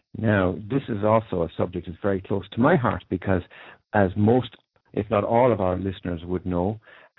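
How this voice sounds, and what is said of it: Irish accent. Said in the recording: “you'll certainly gather from my accent, I come from Ireland”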